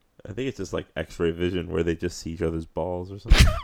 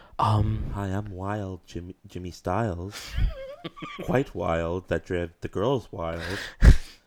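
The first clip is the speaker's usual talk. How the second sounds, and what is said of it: Flat monotone character voice. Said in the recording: “Clearly, with my monotone voice.”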